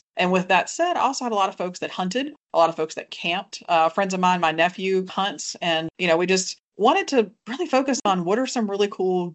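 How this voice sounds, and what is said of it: Southern Virginia accent. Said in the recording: “based on my accent, when you listen to me, I am not from quite deep in the South, but I am from Southern Virginia”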